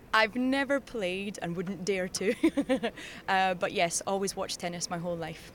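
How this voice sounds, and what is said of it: Scottish accent. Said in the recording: “I can hear from your accent, somewhere in Scotland... Dundee.”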